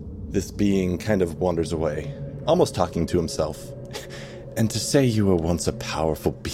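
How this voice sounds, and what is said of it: Usual voice. Nothing is said of it.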